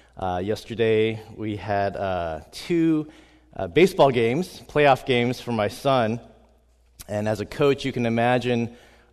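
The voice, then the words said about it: Hoarse voice. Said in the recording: “my voice may sound a little bit hoarse.”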